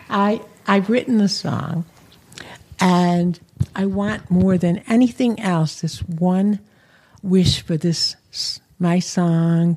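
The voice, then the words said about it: Chicago accent. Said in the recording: “He's such a Chicago accent.”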